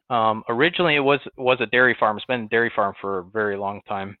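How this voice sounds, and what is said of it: Western New York accent. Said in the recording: “you can probably tell from my accent, I'm not from Texas. I grew up in Western New York, near Buffalo”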